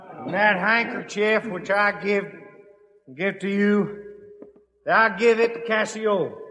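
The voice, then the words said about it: Broad Texas accent. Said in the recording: “a broad Texas accent”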